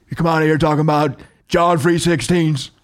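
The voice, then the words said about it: Imitates another person's voice. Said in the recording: “My Stone Cold's not bad.”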